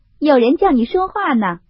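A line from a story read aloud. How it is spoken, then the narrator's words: Laughing. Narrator (Chinese): 凤姐向林黛玉笑道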